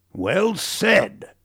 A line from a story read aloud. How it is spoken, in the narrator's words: boomed